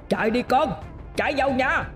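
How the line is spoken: Loud shout. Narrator (Vietnamese): Thầy Sáu hét lớn

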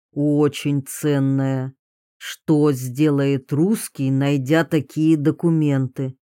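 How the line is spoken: Slow, after a pause. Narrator (Russian): Кинджира на миг задумался, потом медленно проговорил

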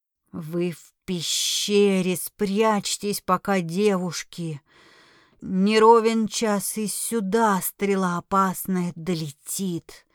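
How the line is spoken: Dragon's hiss. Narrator (Russian): Прошипел дракон

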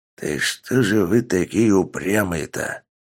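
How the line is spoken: Quiet grumble. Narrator (Russian): тихо проворчал он

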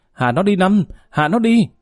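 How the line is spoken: Shout. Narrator (Vietnamese): Thái hét lên

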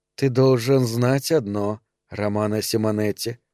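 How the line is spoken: Quiet. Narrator (Russian): сказала она тихо

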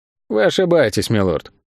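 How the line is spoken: Even tone. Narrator (Russian): ровным тоном ответил Тео

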